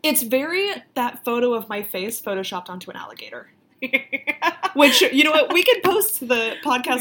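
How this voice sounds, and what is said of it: Thick Florida Southern country accent. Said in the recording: “I'm from Florida. I got a thick-ass country accent.”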